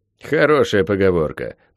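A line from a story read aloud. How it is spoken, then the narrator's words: Grumbling. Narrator (Russian): проворчал граф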